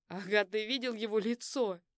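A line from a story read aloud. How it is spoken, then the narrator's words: Pleased laughing. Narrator (Russian): засмеялся Руслан, явно довольный исходом ситуации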